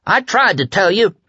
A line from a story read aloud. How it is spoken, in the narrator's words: he cried